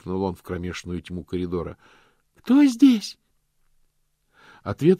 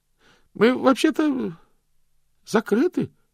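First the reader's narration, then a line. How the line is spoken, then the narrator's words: Trembling voice. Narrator (Russian): сказал он дрожащим голосом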